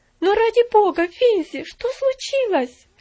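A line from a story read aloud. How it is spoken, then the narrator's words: Alarmed cry. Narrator (Russian): вскрикнула она с еще большим беспокойством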